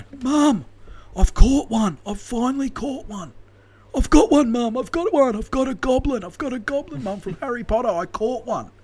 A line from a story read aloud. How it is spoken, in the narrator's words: Joe's screaming on the other end of the phone